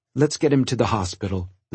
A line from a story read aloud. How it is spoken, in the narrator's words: the nurse said